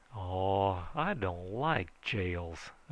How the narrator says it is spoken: I said irritably

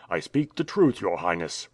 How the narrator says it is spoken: replied Ivan Ogareff coldly

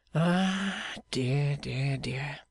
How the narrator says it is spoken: sighed Clennam

